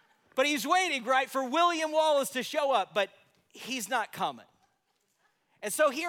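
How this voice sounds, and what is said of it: Usual voice. Nothing is said of it.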